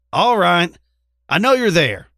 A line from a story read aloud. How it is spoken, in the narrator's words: she hollered